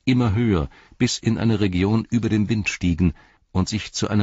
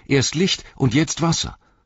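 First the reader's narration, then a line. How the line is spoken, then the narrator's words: Called out. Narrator (German): rief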